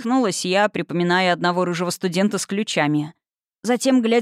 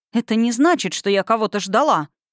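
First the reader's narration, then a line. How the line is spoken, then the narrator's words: Indignant. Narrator (Russian): сказала возмущенно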